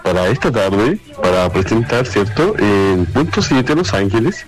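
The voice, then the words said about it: Radio announcer voice. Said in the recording (Spanish): “una voz de locutor ... Esa voz es como para radio ... Como una voz de así como cooperativa.”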